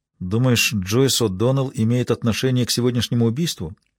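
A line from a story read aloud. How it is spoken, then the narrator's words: Quiet question. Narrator (Russian): тихо спросила Маура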